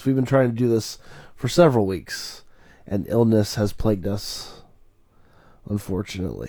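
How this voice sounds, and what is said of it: Congested, sick-sounding voice. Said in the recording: “I am sick, so I sound congested.”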